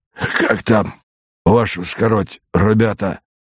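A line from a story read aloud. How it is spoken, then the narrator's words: Hoarse, after a barking cough. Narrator (Russian): Первый солдат, должно быть старший, откашлившись хриплым, похожим на собачий лай кашлем, сказал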